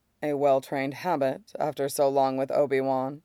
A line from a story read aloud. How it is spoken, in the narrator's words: he says dryly